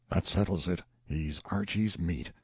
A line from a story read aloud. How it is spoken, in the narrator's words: one voice after another muttered